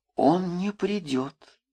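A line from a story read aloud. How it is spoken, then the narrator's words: Quiet. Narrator (Russian): тихо говорила Маша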